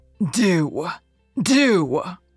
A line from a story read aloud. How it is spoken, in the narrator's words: roared Norman